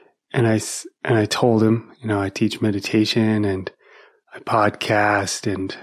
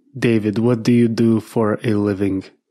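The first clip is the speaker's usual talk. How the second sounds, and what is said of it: Russian accent. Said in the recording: “said in a Russian accent”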